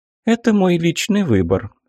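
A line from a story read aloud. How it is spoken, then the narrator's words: Calm reply. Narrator (Russian): спокойно ответила Пересвет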